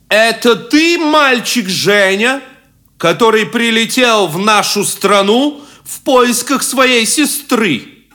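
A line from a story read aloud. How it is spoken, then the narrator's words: Loud, stern questioning. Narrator (Russian): громко и сурово начал спрашивать вельможа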